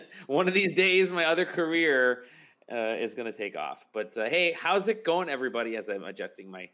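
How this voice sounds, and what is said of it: Usual voice. Nothing is said of it.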